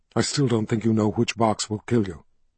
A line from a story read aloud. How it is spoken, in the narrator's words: Richard whispered